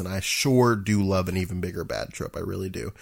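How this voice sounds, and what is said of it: Sarcastic delivery. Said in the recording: “That was sarcasm. ... that was straight up sarcasm.”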